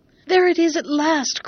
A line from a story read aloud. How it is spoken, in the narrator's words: cried the prince, and fresh blood seemed to spring in his veins